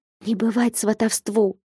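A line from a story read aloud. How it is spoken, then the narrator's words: Whispered. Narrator (Russian): шепнула ей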